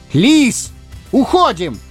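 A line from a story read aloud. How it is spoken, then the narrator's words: Full-voice yell. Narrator (Russian): заорал во весь голос, уже не думая таиться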